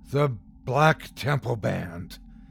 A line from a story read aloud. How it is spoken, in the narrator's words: gasped aloud